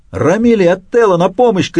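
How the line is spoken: Shouting at full strength. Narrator (Russian): крикнул со всей мочи

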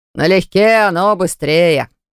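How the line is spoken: Cheerful reply. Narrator (Russian): бодро отозвался возница

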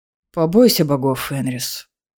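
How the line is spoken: Tired sigh. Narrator (Russian): устало вздохнул Гарель

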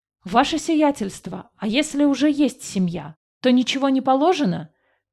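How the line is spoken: Called out. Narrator (Russian): выкрикнул один из мужиков-работников

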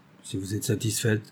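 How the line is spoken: Indifferent tone. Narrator (French): répondit-il d'un ton indifférent

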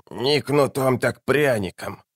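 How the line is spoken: Old woman muttering. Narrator (Russian): бормотала старуха

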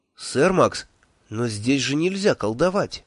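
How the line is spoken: Unhappy voice, fragile woman. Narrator (Russian): несчастным голосом сказала хрупкая Хисса

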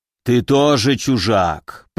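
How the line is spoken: Growling creature. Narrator (Russian): прорычал гранитарок

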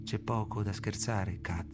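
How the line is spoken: Murmured. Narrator (Italian): mormoro io

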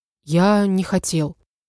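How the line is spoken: Soft reply. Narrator (Russian): мягко ответил

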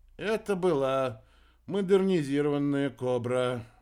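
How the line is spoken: Sighed. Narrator (Russian): Вздохнул Масан

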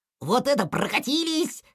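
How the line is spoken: Joyful guffawing, two voices. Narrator (Russian): хохотали малыш и здоровяк, от радости

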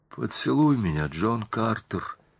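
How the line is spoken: Whisper. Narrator (Russian): прошептала она

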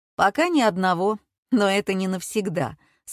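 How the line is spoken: Calm explanation. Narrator (Russian): спокойно пояснил мужчина

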